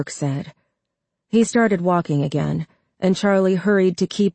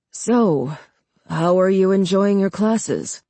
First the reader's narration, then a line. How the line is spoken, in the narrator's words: Clay Burke asked in a jovial tone